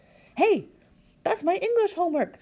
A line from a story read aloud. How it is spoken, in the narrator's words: cried